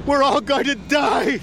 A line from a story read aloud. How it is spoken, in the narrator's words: screamed a man